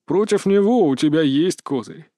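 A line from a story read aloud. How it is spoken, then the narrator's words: Snide smirk. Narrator (Russian): ехидно усмехнулся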